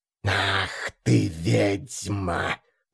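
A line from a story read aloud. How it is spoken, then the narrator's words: Angry hiss, creature. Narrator (Russian): Зло прошипела тварь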